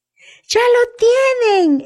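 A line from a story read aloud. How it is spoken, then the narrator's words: Jubilant exclamation. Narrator (Spanish): exclamó Jim jubiloso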